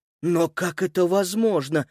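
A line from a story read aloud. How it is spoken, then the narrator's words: Barely audible speech. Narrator (Russian): еле слышно проговорил Антон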